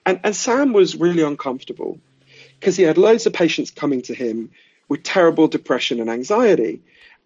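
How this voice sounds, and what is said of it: Posh English accent. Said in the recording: “He's from a poor part of East London, where I'm from, as you can tell from my weird Downton Abbey accent.”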